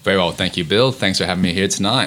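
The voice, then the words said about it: American accent mixed with Australian. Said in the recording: “have that distinct American accent ... some words I say are a little American, some words I say a bit Aussie, so I'm kind of caught in between ... this American accent”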